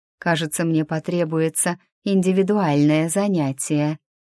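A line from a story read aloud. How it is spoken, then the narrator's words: Insinuating whisper in ear. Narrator (Russian): вкрадчиво шепнула Маша ему на ухо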